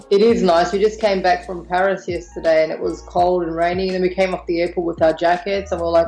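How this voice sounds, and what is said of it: Noticeable non-local accent. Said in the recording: “we can detect an accent ... I'm from Australia. So born in Australia with Maltese heritage.”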